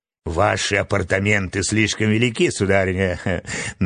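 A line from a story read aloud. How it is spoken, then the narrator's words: Mocking remark. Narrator (Russian): насмешливо заметила красавица Стелла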